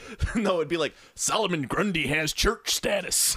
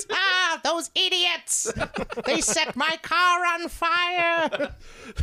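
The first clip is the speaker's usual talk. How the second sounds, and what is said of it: Cartoon villain voice like the Monarch. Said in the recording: “Why does the Scarecrow sound like the Monarch? ... That's my only villain voice. ... It is the de facto villain voice.”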